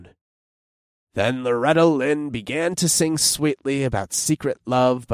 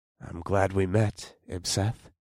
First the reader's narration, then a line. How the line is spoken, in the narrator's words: murmured